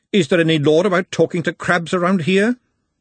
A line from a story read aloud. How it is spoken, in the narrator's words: snapped